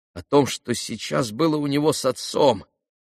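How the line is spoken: Trembling voice. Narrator (Russian): произнес тоже дрожащим голосом Алеша

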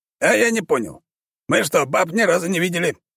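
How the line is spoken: Shouting at soldiers. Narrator (Russian): закричал он на своих солдат

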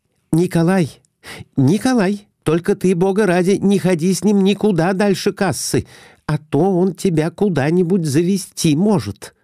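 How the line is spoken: Frightened. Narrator (Russian): испуганно сказала Глафира Семеновна

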